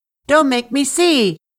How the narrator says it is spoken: Anansi shouted over and over

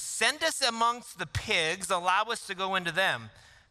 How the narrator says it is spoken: The demons begged Jesus

